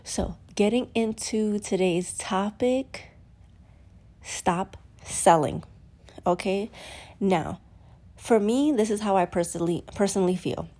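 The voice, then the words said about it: Slightly congested, sniffly voice. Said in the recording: “I have the sniffles. I don't know if you can hear it in my voice. I'm a little congested.”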